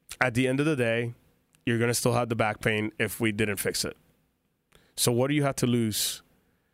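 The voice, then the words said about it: Speaks with a noticeable accent. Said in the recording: “you're probably entertained by my accent”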